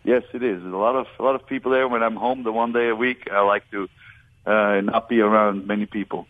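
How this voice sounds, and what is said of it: Foreign accent. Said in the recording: “he's got an accent ... just with the accent”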